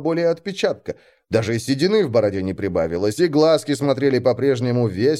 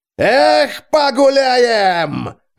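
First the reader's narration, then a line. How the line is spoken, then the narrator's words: Loud yelling. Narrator (Russian): заорал Джузеппе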